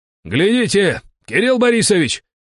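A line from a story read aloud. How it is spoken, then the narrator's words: Sudden yell. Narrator (Russian): вдруг заорал Ай-Ай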